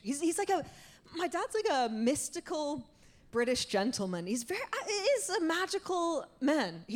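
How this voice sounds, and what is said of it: Slight British-tinged lilt. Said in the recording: “I do sound a bit like an asshole. Uh, I do have a slight like Madonna lilt”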